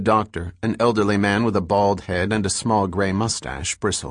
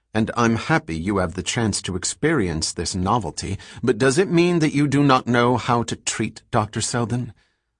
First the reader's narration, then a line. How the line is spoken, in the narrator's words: said coldly